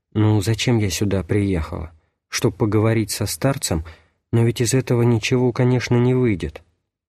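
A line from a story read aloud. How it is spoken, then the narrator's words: Whisper in the ears. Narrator (Russian): Словно кто-то шептал в уши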